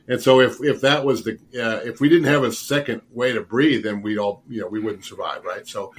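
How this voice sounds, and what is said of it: Slightly rough voice. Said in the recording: “I'm just getting over one. My voice is a little rough.”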